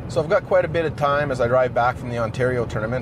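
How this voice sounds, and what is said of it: Canadian accent. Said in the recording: “one of the most Canadian things ever ... you'll be able to tell from the guy's accent immediately”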